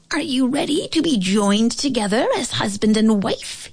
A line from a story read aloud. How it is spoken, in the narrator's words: He squeaked